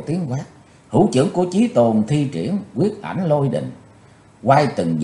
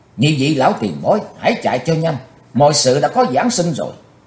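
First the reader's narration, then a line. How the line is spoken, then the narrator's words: Loud shout. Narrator (Vietnamese): Chí Tôn quát to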